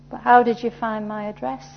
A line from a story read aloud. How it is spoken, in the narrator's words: Sanji asked